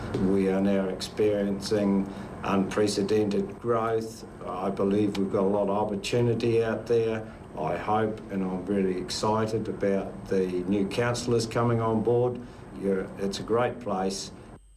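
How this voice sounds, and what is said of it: New Zealand accent. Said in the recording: “New Zealand accent of the week”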